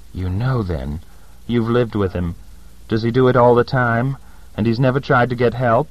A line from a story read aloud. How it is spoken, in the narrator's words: said bitterly